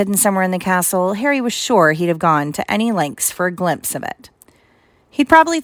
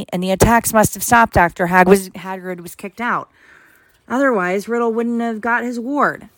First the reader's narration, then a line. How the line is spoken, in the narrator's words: said Harry miserably